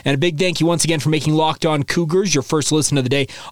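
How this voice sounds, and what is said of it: Slightly off, sore-throated voice. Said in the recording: “my voice sounds a little bit off today ... I think I might be coming down with a sore throat”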